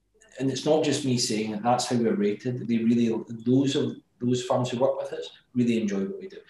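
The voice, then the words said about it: Glasgow Scottish accent. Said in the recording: “as you can tell by my accent, I'm from Glasgow”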